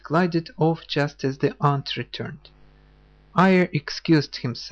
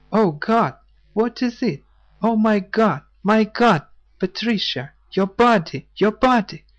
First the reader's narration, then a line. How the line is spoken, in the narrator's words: Awaking as from death, suddenly cried out